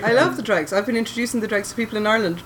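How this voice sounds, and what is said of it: Genuine Irish accent. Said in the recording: “You're like genuinely Irish... That accent is not fake. You're not putting it on.”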